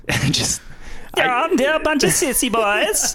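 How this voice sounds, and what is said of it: Mock German accent as Hitler. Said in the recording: “that's a German accent ... I'm just making fun of Hitler”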